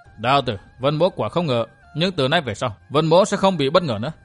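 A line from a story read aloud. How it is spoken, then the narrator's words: Cold, suppressed anger. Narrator (Vietnamese): Hít một hơi dài lãnh khí, Vân Thiên Nhạc gượng trấn áp nộ khí, lạnh lùng nói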